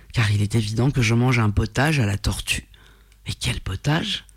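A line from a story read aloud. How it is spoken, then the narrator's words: Murmured. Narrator (French): murmura-t-il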